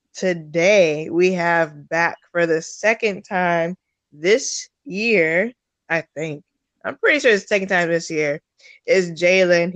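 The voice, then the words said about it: Hoarse voice from a cold. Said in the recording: “Sorry about my voice. And if you hear coughing throughout ... trying to recover from this fucking cold”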